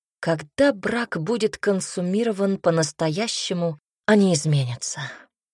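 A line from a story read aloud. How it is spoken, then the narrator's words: Loud exhale. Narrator (Russian): шумно выдохнул Айрон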